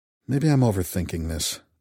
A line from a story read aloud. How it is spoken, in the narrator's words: I muttered